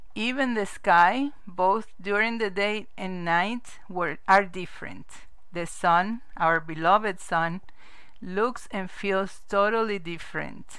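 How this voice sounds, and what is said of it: Non-native English accent. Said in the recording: “I have an accent ... everything flows through me in English first, most of the time, sometimes in Spanish”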